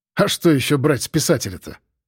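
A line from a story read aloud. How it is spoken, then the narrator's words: Snorting. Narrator (Russian): хмыкнул Федя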